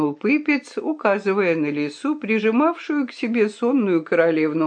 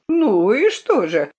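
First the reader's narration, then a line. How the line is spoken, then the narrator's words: Laughing. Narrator (Russian): рассмеялся Пукло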